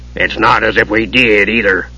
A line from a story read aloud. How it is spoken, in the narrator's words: Flint grumbled